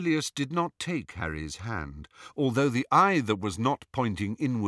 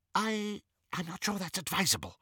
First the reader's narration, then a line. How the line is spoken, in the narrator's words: whispered Xenophilius